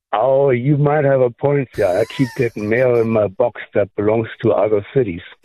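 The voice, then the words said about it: German accent. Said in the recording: “I like your accent. Where are you from originally? ... I'm an import from Germany.”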